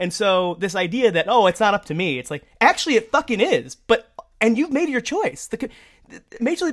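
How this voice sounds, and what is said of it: Usual voice. Nothing is said of it.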